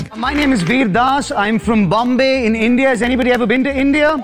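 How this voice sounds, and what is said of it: Indian English accent. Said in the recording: “I have an Indian accent. This is how I talk. Not doing a bit.”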